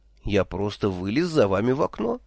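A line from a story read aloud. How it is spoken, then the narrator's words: Confused, flustered. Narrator (Russian): растерянно объяснил он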